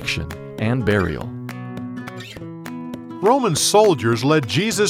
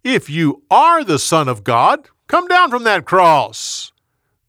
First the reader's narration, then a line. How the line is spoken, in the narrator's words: Some of the people shouted